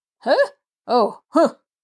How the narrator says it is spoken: he grunted

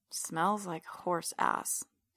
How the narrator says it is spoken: I mumble to myself

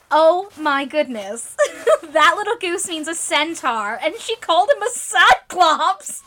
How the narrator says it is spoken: exclaimed Jo with a burst of laughter

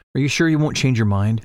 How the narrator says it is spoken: Shallan asks

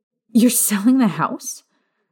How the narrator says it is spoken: Lily snapped, her voice near a screech

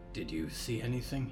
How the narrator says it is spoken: Percy whispered

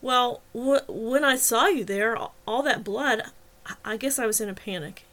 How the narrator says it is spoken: stammered

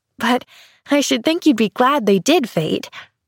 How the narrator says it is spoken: laughed Pollyanna

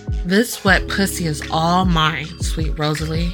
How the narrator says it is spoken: Dean grunts into my ear, picking up his pace, thrusting into me hard

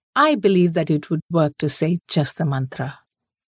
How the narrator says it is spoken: she said

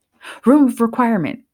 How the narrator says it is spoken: she blurted out

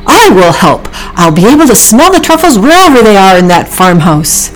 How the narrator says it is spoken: Oliver blurted out

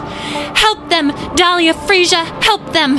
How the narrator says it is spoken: Wisteria shrieked

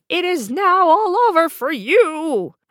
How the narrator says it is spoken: cried the wicked queen

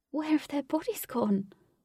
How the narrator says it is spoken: Katie asked in a saddened tone

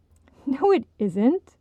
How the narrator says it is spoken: Audrey laughed

